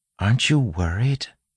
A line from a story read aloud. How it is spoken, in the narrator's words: Marcy asked softly of Wayne